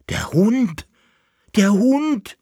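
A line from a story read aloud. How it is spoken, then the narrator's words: Shouted. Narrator (German): schrie er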